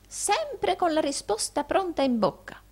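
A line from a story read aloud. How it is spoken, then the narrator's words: Admiring old man exclaiming. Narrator (Italian): esclamò il vecchio Arturo levando le mani e gli occhi ammirati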